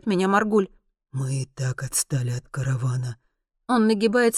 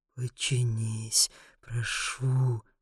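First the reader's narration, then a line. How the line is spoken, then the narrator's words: Muttering through clenched teeth. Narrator (Russian): бормочет Маргуль сквозь стиснутые зубы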